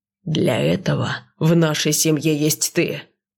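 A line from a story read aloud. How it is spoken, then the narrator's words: Growled. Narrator (Russian): зарычал Вард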